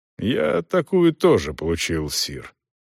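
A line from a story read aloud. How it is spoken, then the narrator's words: Calm reply. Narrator (Russian): спокойно отозвался Демерзель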